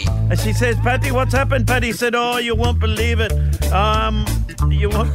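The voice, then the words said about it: Poor put-on accent. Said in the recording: “So not only a woeful accent, but you've stopped halfway through.”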